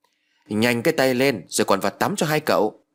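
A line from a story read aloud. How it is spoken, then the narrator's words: Barking. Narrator (Vietnamese): Bà Hoài quát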